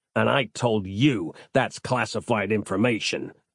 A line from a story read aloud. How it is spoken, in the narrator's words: growled Kettlestrom